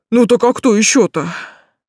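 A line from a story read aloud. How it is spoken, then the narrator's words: Chuckling witcher. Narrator (Russian): хохотнул ведьмак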